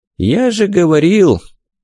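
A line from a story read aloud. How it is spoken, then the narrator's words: Somewhat sad. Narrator (Russian): заключил Стрик, даже несколько печально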